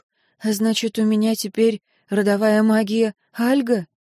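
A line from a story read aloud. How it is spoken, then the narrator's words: Sighing question. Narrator (Russian): она спросила, вздохнув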